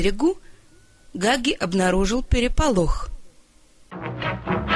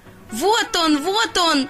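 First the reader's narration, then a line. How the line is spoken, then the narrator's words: Ducklings shouting excitedly. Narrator (Russian): закричали утята, которые первыми увидели его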